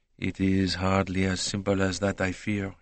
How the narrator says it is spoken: he murmured

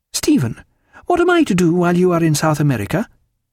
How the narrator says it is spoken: in a very much happier tone

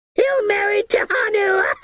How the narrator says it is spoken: the woman shrieked joyful

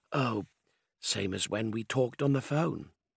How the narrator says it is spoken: She said in her husky voice

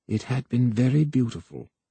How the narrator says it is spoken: Voy said softly

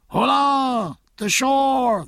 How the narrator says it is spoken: they cried

